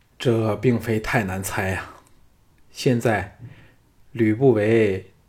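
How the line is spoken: Shaken, sighing to himself. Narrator (Chinese): 项少龙惊魂甫定，自顾自的叹了一口气说

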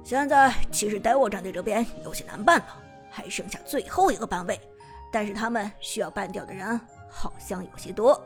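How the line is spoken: Deep, grave voice. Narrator (Chinese): 沉声说道

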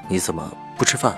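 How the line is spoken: Deep, low. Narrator (Chinese): 他沉声问我

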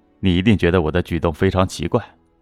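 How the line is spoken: Laughing, middle-aged man. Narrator (Chinese): 中年男人笑着说

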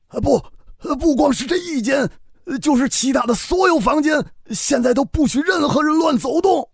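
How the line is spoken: Strained shout. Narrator (Chinese): 何父使了好大的劲儿，才喊出了声

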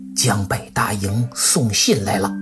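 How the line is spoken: Faint, broken voice. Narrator (Chinese): 声音呐太小了……断断续续的，就听到那名军校说

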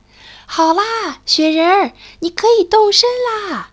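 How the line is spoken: Happy little animal calling. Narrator (Chinese): 小鼹鼠很高兴，对着高山呼喊

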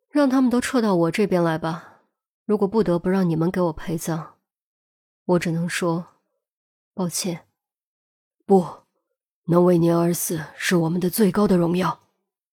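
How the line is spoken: Soft sigh. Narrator (Chinese): 黑幻蝶一声轻叹，接着说

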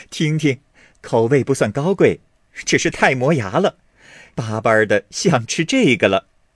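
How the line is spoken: Laughing. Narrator (Chinese): 凤姐一旁笑道

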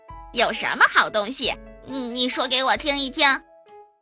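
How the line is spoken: Laughing. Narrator (Chinese): 艾摩笑着说

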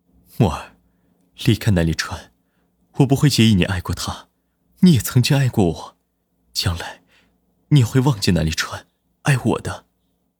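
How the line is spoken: Soft but forceful. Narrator (Chinese): 龚若轩，声音轻柔却带着强势

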